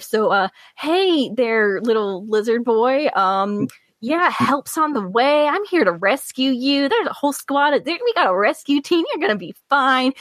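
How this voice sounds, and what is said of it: Southern accent. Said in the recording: “your southern accent just came out”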